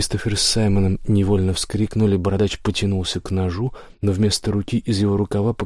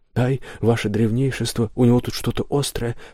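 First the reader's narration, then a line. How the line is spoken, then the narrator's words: Sudden cry of pain. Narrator (Russian): вскрикнул разбойник, порезавшись о нож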